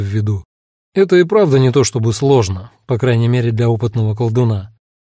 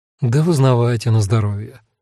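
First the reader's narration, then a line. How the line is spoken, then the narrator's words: Sighing. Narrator (Russian): вздохнул я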